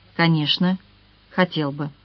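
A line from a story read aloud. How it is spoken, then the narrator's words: Tender. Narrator (Russian): Юноша нежно произнес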